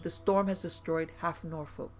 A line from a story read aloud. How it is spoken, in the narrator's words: exclaimed